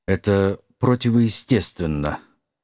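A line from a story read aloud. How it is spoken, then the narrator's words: Muffled grumble. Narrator (Russian): глухо буркнул сэр Гамильтон-младший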